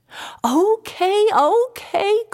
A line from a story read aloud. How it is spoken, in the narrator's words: cried my mother